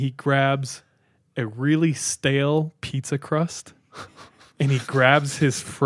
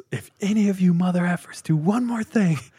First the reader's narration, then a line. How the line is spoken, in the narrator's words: He yells